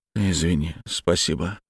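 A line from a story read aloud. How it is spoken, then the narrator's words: Embarrassed mutter. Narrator (Russian): смущенно пробормотал Глеб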